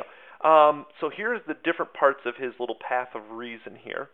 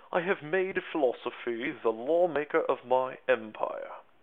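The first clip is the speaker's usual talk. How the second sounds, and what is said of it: Put-on accent for a quoted figure. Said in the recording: “Really not sure if that's his accent”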